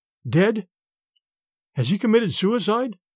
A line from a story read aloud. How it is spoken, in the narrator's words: I stammered